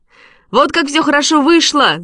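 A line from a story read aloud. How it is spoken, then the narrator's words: Shout. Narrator (Russian): закричал он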